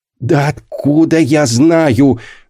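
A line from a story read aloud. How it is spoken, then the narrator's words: Anguished groan. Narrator (Russian): застонал Антон Семенович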